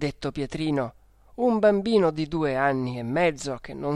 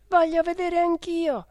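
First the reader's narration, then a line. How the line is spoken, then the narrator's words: Little sister exclaiming. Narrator (Italian): ha esclamato subito la Geppina, che è la sua sorella minore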